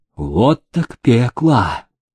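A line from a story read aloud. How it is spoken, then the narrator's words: Deep sigh, then said. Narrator (Russian): Генерал вздохнул полной грудью и сказал Демидову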